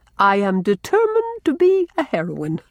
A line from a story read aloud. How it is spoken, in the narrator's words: Blythe, achieving a laugh